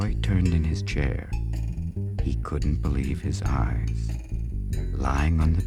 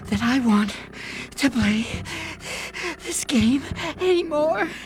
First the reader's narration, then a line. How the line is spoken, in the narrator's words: said in between gasps of air